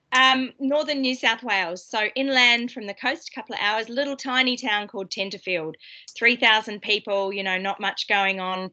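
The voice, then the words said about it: Australian accent. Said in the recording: “I grew up in Australia. I try to hide my accent so you can't tell, but people can still tell.”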